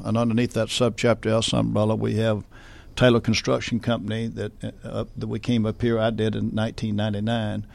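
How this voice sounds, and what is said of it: Southern US accent. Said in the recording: “You can tell by my southern accent, I'm not from New Jersey. But coming from Augusta, Georgia”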